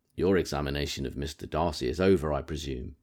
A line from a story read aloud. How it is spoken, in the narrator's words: said Miss Bingley